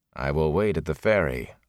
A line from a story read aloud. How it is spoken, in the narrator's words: Lan said flatly